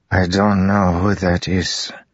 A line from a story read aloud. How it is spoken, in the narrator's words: Zeth said, his words slurring from his broken jaw